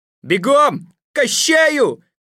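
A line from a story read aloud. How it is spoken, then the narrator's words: Shouting. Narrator (Russian): кричал Миллиардский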